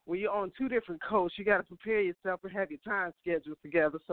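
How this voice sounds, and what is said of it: Out of breath, breathless speech. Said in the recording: “you can tell I'm already out of breath.”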